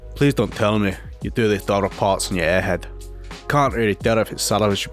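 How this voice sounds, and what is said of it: Bad put-on Scottish accent. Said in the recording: “I'll do a voice. Where do you think he's from? Scotland. ... He's got to be Scottish. ... That is the worst Scottish accent I've ever heard.”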